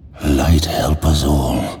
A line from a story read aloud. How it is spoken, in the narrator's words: Khadgar breathed